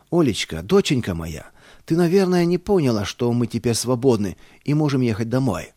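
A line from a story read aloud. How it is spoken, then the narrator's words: Joyful shout. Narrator (Russian): радостно закричал я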